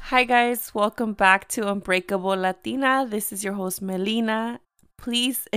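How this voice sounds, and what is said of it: Hoarse, strained voice, losing voice. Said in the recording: “excuse my voice. I am kind of losing my voice because yesterday I sang my little heart out”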